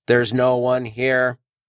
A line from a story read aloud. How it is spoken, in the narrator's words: in the same flat tone